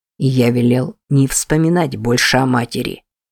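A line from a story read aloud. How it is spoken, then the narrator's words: Through gritted teeth. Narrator (Russian): процедил Уильям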